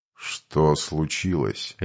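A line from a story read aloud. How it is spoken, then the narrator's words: Lazy inquiring voice. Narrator (Russian): ленивым голосом поинтересовался маг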